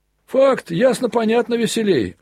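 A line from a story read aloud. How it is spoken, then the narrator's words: Shout from crowd. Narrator (Russian): выкрикнул опять кто-то из гущи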